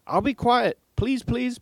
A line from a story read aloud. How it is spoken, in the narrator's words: piped in Thomas